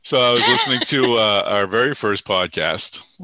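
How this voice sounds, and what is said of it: Usual voice. Nothing is said of it.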